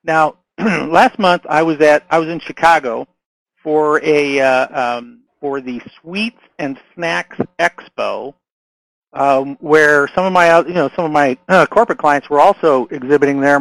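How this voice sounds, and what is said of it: Strained, hoarse voice. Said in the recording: “my throat is, I'm losing my voice again.”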